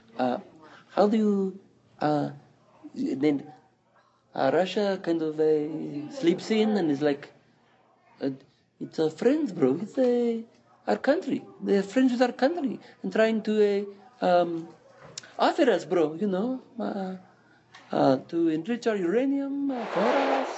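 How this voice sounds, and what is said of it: Put-on Iranian accent. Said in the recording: “I now become Iranian accent for Iranian part of the question”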